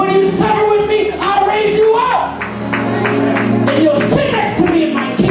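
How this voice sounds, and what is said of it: Usual voice. Nothing is said of it.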